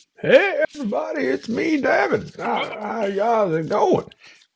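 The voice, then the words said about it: Sounds like an old man. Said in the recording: “you sound like an old man now”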